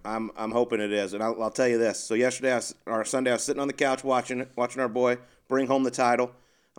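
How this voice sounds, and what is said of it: Strained, worn-out voice. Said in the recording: “That's why my voice is struggling a little bit today.”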